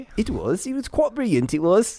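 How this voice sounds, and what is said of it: Put-on British accent. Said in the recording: “Can you'll you do it in a British accent,”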